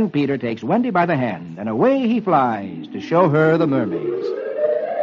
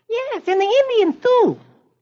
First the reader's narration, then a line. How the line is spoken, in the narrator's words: little Michael chirps